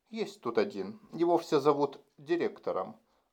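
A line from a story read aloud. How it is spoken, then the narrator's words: Plain. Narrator (Russian): ответила Джерин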